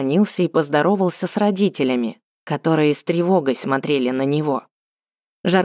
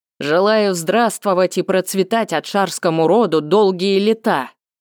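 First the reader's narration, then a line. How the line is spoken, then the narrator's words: Loud greeting. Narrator (Russian): Он громко сказал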